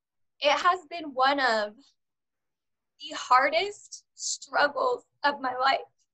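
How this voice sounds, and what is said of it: Emotional, tearful voice. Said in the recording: “I'm really sorry for getting emotional”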